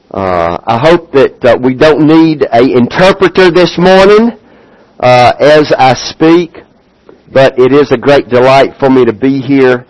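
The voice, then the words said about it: Thick Southern US accent. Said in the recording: “you've got quite a thick accent there ... Down south”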